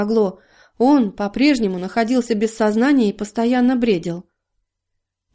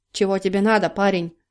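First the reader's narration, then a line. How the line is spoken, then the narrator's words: Gruff mutter. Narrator (Russian): буркнул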